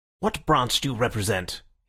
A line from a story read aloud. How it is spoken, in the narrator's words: he asked sharply